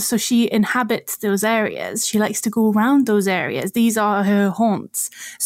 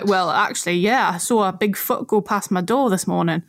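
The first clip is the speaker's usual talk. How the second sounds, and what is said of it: Put-on Geordie accent. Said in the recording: “in a very Geordie accent instead of a Scottish accent”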